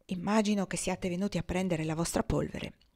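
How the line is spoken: Low voice. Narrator (Italian): A bassa voce disse

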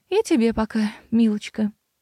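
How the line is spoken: Sighing. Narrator (Russian): вздохнула мэр

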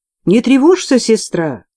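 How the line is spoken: Encouraging shout. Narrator (Russian): ободряюще крикнула я

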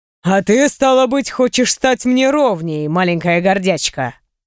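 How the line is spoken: Light, interested, faintly growling. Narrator (Russian): Он проговорил это слишком легко, заинтересованно и с рычащими нотками в голосе

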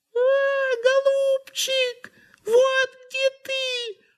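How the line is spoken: Squeaking. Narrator (Russian): запищал птичий нос

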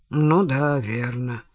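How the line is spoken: Mutter. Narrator (Russian): буркнул Сомс

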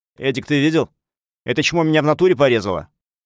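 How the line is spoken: Loud. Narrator (Russian): громко сказал

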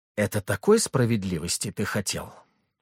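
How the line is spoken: Whispered question. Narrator (Russian): спросил я шепотом

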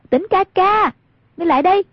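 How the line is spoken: Calling out loudly. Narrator (Vietnamese): Hoàng Dung cao giọng gọi

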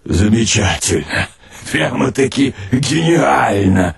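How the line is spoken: Laughing. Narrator (Russian): Рассмеялась голова

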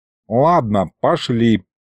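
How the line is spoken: Grumbling. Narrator (Russian): проворчал Аристофан

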